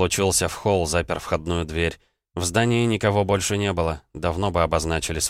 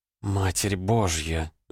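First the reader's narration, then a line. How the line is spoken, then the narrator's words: Spellbound mutter. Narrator (Russian): завороженно пробормотала Элли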